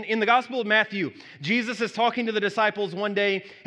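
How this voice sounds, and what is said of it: Usual voice. Nothing is said of it.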